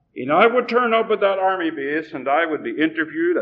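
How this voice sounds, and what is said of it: Irish accent. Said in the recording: “You don't get an American passport when you're born in Ireland. And you know, by my accent, I wasn't born in Texas.”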